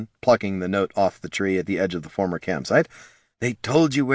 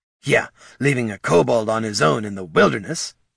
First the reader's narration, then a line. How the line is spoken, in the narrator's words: snarled Bert